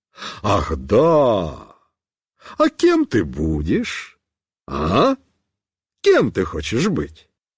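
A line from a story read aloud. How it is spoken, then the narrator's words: Joyful, smiling question. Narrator (Russian): радостно улыбаясь, спросит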